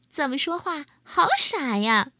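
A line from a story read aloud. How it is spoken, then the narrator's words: Croaking laughter, frogs. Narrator (Chinese): 三只青蛙都忍不住呱呱呱呱大笑起来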